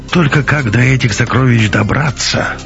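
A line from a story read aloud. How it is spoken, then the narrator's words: Dejected sigh. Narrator (Russian): сокрушенно вздохнул Беленин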